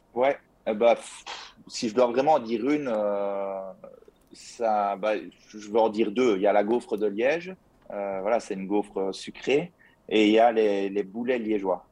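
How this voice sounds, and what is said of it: Slight Liège Belgian French accent. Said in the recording (French): “je viens de la province de Liège, donc euh, ça, ça, doit s'entendre à mon accent ... Ça s'entend un petit peu.”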